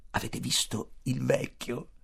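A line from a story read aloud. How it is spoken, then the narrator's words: Whispered. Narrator (Italian): bisbigliò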